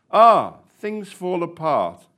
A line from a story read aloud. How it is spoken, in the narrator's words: the shop owner said in a thoughtful voice